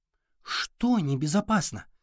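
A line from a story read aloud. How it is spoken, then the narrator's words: Whisper. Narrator (Russian): прошептала Лейла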